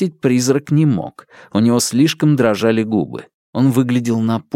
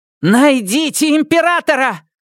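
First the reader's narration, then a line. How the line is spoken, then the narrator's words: Roaring woman. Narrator (Russian): взревела Сизин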